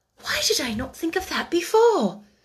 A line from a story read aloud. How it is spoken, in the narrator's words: she exclaimed